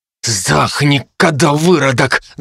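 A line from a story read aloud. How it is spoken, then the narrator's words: Hissing in face. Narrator (Russian): зашипел мне в лицо гвардеец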